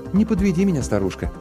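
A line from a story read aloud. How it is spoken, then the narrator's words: Affectionate. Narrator (Russian): ласково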